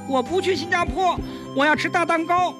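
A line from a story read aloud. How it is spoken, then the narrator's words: Clamoring. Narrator (Chinese): 向外孙吵嚷道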